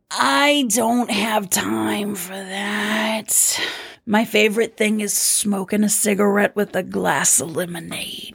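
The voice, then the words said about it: Character voice of Doreen. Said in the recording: “Question for Doreen and Mavis... I don't even know if I can do this voice after doing Rocco yesterday.”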